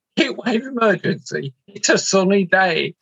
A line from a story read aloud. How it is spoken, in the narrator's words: laughed his head off and said